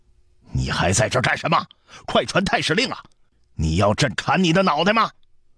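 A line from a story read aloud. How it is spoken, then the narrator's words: Angry roar. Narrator (Chinese): 对太常寺长史的怒吼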